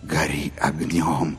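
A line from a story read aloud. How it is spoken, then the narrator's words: Crowd whispering. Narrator (Russian): шептали люди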